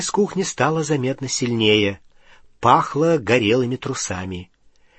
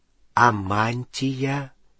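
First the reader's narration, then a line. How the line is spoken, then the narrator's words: Slow speech. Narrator (Russian): медленно проговорил Рон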